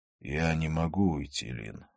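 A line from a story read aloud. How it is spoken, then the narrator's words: Sighed. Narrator (Russian): вздохнул он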